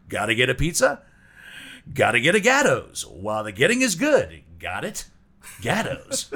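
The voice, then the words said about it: Faux 1960s radio announcer voice. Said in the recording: “my faux 1960s radio voice when you put the hand over your ear”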